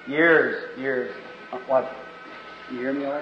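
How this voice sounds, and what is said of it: Barely audible whisper. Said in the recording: “I'm just barely whispering.”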